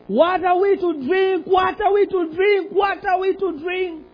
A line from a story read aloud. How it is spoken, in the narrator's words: Moses cried out to the Lord